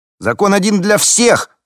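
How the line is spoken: Shouting young man. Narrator (Russian): кричал какой-то парень

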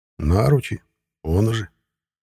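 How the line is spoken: Soothing reply. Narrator (Russian): успокаивающим тоном ответил он

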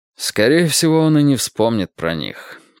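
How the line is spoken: Mumbling. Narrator (Russian): пробормотал Перри Мейсон

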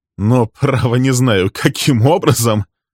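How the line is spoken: Laughing. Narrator (Russian): рассмеялся Фрэнк

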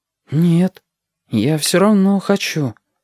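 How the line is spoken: Uncertain reply. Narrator (Russian): неуверенно отозвался Стасик

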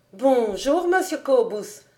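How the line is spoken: Exclaiming woman. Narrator (French): s'écria la bonne femme

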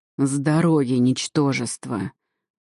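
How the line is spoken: Demonic growl. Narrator (Russian): прорычал демон

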